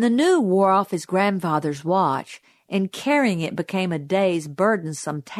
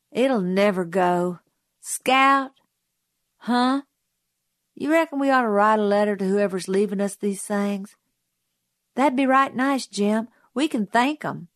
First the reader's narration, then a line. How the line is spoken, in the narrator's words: he sighed